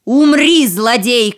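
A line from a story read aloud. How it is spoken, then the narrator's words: Shouted. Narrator (Russian): крикнул султан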